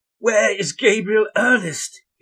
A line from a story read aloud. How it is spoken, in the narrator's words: he almost screamed